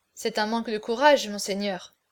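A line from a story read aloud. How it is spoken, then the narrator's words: Low voice. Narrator (French): prononça Gonzague à voix basse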